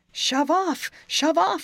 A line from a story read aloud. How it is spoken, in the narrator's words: I cried